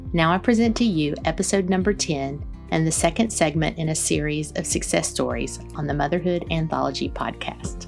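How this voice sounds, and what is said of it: Soothing Southern American accent. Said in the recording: “you have the perfect podcast voice ... I'm so Southern that I feel like there are probably people out there going, what did she say? ... It's so soothing”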